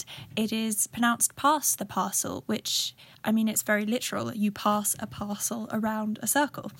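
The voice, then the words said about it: Southern English accent. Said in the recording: “in my particular southern accent”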